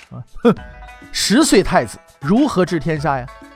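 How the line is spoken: Cold sneering. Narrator (Chinese): 高拱却只是冷笑一声，对同在内阁的张居正与高仪说了这么一句话

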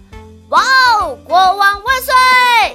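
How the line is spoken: Shouting. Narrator (Chinese): 奥利埃特大喊道

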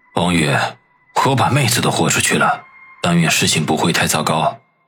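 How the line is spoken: Quiet muttering. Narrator (Chinese): 孙伟良小声的嘀咕道

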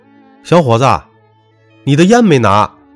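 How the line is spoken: Calling out. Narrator (Chinese): 卖烟的老板喊道

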